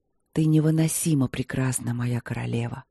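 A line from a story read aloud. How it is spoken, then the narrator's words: Hoarse whisper. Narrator (Russian): хрипло прошептал он в ответ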